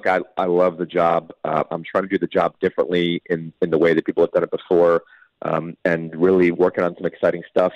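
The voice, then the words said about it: Slightly sick, congested voice. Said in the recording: “you could tell in my voice I'm a little sick ... A little bit of a cold”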